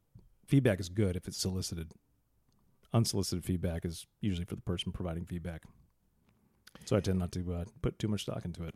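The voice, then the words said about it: Deliberately deep, low voice. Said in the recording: “I'm going to do my talking in a really low voice here as well, because, you know, people take you serious when you do that.”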